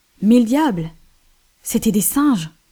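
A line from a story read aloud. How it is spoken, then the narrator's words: Exclaimed, laughing heartily. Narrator (French): s'écria le capitaine Hodd, en riant de bon cœur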